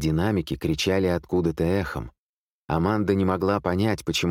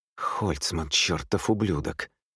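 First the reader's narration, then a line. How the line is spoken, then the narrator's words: Through gritted teeth. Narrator (Russian): процедил сквозь зубы Михаил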